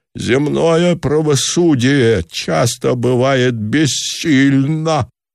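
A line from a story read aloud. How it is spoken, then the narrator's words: Exclamation. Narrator (Russian): воскликнул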